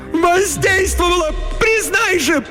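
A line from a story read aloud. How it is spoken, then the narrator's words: Shrill seagull-like shout. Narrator (Russian): Пронзительным, как у чайки, голосом выкрикнула Летиция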